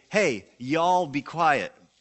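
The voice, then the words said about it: Slight put-on Southern accent. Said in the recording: “a little southern accent”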